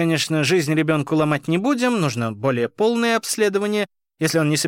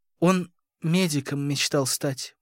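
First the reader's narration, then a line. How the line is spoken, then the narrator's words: Woman's mumble. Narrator (Russian): пробормотала женщина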